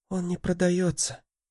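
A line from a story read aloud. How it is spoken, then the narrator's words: Whispered. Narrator (Russian): прошептал Мартин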